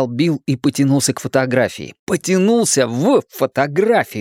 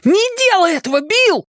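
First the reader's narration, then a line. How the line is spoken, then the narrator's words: Shouting. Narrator (Russian): крикнул Ричи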